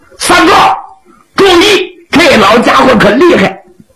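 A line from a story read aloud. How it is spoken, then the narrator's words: Urgent shout. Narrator (Chinese): 出于这种担心，林立紧喊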